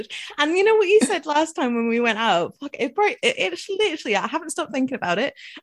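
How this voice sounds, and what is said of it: English accent, occasionally Scottish-sounding. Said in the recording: “I know I sound English... when I do say some things and it sounds Scottish”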